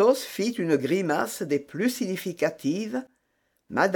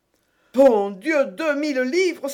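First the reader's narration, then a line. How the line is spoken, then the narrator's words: Crying out. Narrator (French): s'écria-t-elle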